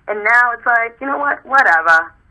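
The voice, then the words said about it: Rhode Island accent. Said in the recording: “in the Rhode Island accent.”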